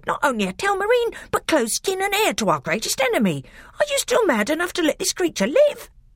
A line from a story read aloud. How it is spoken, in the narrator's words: he cried